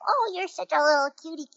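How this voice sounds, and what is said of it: Cutesy baby-talk voice. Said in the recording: “it is very difficult not to baby talk to these kittens ... the kittens get talked to in character voices sometimes”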